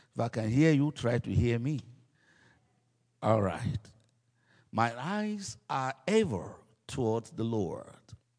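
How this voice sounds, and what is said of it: African-accented English. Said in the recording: “Am I too African? Am I accent? Okay. Because everyone have accent.”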